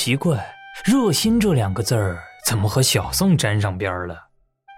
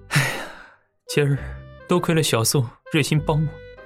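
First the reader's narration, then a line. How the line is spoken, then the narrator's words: Whimpering. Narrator (Chinese): 严三哭哭唧唧的道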